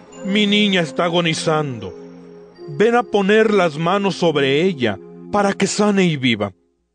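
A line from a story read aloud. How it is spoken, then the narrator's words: Insistent pleading. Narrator (Spanish): le suplicaba con insistencia, diciendo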